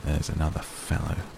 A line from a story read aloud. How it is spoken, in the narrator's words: muttered Scrooge